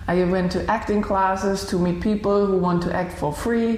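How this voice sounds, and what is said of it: Blended Malay and Indian accent. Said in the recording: “That accent of yours that I just commented on is a blend of Malay, I think, and Indian.”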